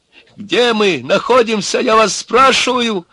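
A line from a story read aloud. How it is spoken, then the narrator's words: Hysterical shouting. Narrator (Russian): Опять закричал тот истеричный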